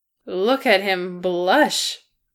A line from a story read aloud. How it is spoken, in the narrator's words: Bomber snorted